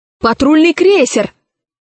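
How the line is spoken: Shout. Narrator (Russian): крикнул кто-то в зале

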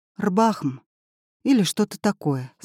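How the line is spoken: Sad. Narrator (Russian): сказала она печально

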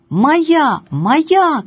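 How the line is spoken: Two voices shouting. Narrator (Russian): кричали оба

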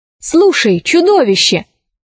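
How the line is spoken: Exclamation. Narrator (Russian): воскликнула Алиса

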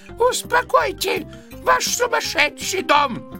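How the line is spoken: Shrill shout. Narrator (Russian): закричал тонким голосом

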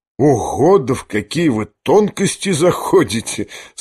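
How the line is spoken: Laughing. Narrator (Russian): смеялся генерал

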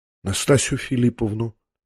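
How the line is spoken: Muttering. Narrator (Russian): пробормотал князь

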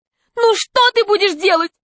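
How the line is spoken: Man's exclamation. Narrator (Russian): воскликнул человек в очках

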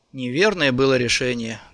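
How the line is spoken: Sad. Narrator (Russian): грустно сказал Мария

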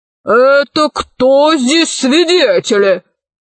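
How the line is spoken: Growling. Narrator (Russian): зарычал полковник

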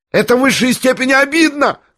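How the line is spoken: Shrieking. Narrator (Russian): завизжал Ипполит

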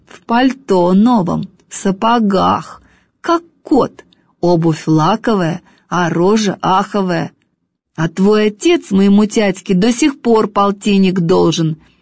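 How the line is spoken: Objecting through gritted teeth. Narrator (Russian): Сквозь зубы возражаю я

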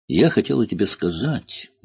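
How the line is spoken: Sad voice. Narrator (Russian): грустным голосом произнесла Кора

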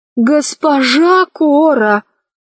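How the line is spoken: Sincere pleading. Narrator (Russian): искренне взмолился Гим

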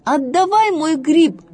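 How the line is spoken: Shouted by a bunny. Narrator (Russian): закричал ей зайка Петя

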